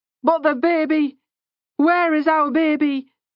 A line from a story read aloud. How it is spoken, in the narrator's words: sobbing